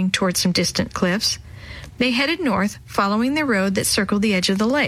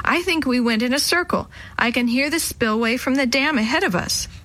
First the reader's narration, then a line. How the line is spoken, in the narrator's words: Sammy yelled from up ahead